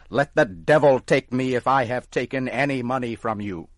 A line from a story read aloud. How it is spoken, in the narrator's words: Tom got angry and started to shout